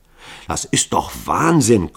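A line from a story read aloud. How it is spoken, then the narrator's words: Panting. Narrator (German): keuchte Hall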